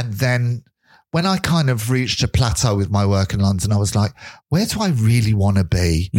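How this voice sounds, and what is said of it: English accent. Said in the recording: “my accent ... I forget I have an English accent until people say it to me.”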